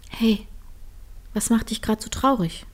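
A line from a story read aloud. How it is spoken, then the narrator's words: Soft sigh. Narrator (German): seufzte leise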